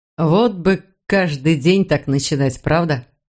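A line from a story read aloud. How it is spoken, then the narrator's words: Plain. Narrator (Russian): сказал он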